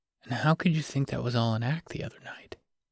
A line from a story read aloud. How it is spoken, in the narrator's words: He whispered